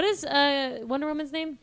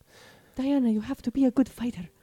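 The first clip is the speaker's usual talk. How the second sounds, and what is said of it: Put-on Israeli accent. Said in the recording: “That's my Israeli accent”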